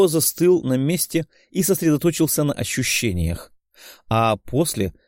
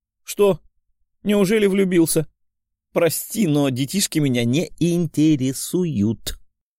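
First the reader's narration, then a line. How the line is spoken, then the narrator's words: Amused, nearly laughing, young woman. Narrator (Russian): Едва не рассмеявшись, сказала довольная девушка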